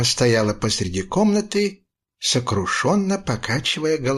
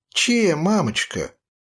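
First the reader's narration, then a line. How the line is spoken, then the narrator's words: Sweet little voice. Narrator (Russian): сладким голоском спросил я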